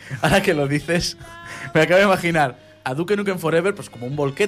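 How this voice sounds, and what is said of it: Usual voice. Nothing is said of it.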